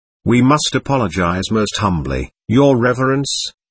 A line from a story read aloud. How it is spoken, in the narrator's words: began Musov, simpering affably, and speaking in a dignified and respectful tone